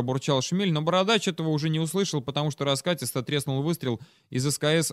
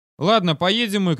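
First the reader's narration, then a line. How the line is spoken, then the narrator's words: Shouting. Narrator (Russian): крикнул я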